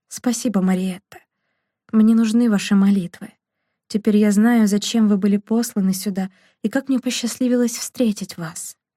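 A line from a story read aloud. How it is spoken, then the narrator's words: Very quiet. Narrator (Russian): Жан-Пьер очень тихо произнес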